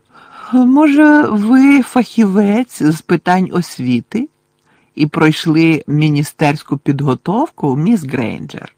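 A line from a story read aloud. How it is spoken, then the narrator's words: Falsely sweet voice. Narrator (Ukrainian): поцікавилася своїм лицемірно-солодким голосом професорка Амбридж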